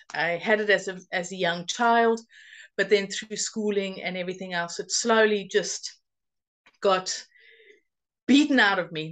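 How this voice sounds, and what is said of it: South African accent. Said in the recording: “we have similar accents, and that is because I grew up in South Africa, but I've been living in the UK for 22 and a half years now”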